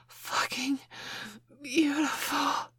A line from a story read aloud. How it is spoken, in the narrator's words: I gasped